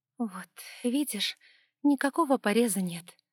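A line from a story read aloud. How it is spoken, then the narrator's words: Hoarse mutter. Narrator (Russian): хрипло пробормотала Ева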